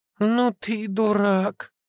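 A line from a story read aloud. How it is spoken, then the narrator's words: Dazed drawl. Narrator (Russian): протянула Настя, приходя в себя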